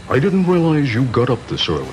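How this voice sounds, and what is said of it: Richard Nixon impression. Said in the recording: “his Richard Nixon impersonation”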